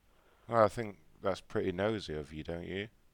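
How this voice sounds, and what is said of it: Unconvincing fake British accent. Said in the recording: “your fake British accent ... It's quite amateur, to be honest with you ... No, it doesn't ... Doesn't sound convincing at all”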